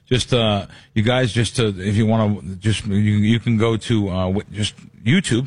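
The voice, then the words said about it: Stuttering, halting speech. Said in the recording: “I'm stuttering.”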